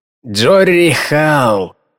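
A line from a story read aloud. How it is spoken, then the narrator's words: Tired explanation. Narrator (Russian): усталым голосом пояснил Холмс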